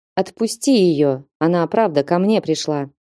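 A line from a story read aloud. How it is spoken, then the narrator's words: Calm, normal tone. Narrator (Russian): сказал совершенно нормальным, спокойным тоном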